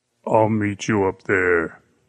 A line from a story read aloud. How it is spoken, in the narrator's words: the giant said, his voice thick with menace